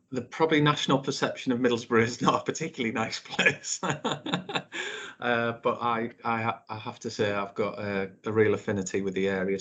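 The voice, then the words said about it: Northeast English accent. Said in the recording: “I can hear from your accent there that you are not a Norfolk local ... I grew up in Middlesbrough in the northeast.”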